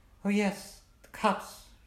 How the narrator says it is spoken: sighed

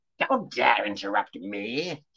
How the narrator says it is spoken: growled the crone

